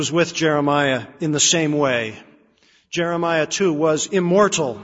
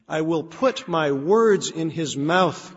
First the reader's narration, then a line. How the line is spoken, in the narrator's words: God said